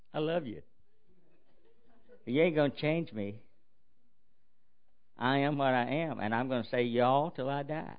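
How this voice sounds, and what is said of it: Southern US accent, slow speech. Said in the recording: “Well, you're from the South, aren't you?... you have an accent. I think you have an accent... I'm going to talk slow”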